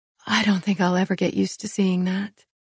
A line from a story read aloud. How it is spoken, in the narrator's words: I whispered